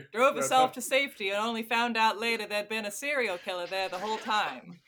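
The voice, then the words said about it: Put-on Maine accent. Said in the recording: “If you want more of my Maine accent ... it's better than most audiobook stabs at the main accent.”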